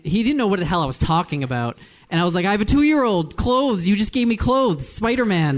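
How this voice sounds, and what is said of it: Usual voice. Nothing is said of it.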